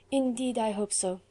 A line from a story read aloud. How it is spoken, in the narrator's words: sighed Juliette